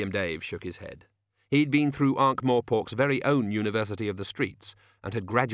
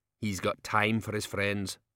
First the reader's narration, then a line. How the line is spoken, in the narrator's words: said bitterly